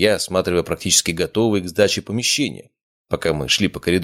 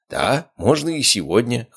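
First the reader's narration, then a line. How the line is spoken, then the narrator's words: Snort. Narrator (Russian): хмыкнул Шапшников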